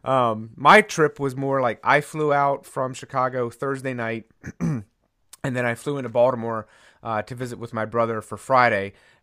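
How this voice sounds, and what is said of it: Voice rough from a cold. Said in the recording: “which anybody listening could probably tell by my voice. ... the trip caught up with me just a little bit uh, with a cold.”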